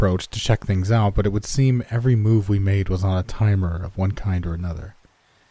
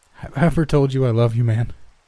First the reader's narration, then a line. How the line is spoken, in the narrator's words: I said, chuckling nervously